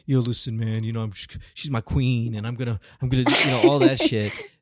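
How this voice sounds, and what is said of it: Put-on New York accent. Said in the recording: “his New York accent”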